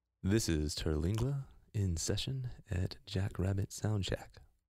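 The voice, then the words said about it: Announcer-style radio voice. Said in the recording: “Getting his radio voice ready.”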